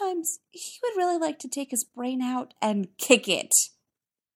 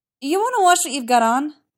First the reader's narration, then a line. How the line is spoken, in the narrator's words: Stiles blurts